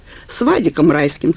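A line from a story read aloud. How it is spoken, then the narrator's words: Plain. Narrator (Russian): сказал я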